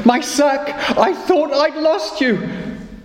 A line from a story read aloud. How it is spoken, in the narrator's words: he laughed with joy and shouted